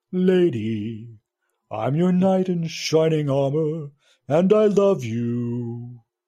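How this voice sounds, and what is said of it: Low singing voice. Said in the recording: “singing in his low voice”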